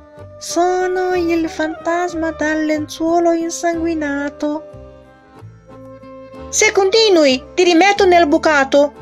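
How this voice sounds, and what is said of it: Tiny, very thin little voice. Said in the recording (Italian): “Il fantasma parlò di nuovo, ma questa volta con una vocina sottile sottile.”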